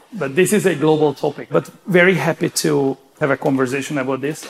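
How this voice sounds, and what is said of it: Speaks with an accent. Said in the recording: “Apologize in advance for the accent.”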